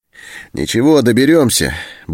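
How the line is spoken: Cheerful. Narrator (Russian): бодро сказал Антон

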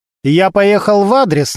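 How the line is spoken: Commanding, bossy tone. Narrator (Russian): начальственным тоном сказал он

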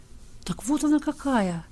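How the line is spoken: Calm musing, blind man. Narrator (Russian): Уже спокойно рассуждал слепой

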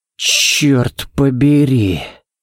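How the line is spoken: Breathless exclamation. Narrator (Russian): Выдохнул Баллок

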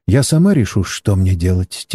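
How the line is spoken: Quiet. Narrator (Russian): тихо произнесла китаянка

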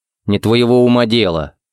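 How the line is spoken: Stern. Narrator (Russian): строго сказал Харри

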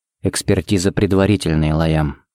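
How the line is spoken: Quiet. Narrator (Russian): сказал он тихо

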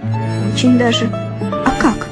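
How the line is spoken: Laughing. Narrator (Russian): Я засмеялась и говорю ему

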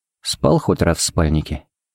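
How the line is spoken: Quiet question. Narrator (Russian): поинтересовался Харри негромко

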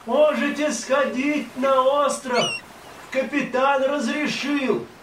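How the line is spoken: Distant shout through megaphone. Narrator (Russian): Бокко еще издали крикнул в морской рупор

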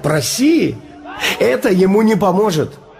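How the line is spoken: Laughing. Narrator (Russian): Я засмеялся и сказал

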